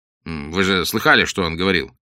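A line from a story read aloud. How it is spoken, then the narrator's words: Curt, angry. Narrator (Russian): Уэйд сердито пожал плечами, затем коротко добавил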